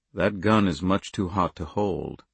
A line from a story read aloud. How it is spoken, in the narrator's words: Andy said in a low, pleasant voice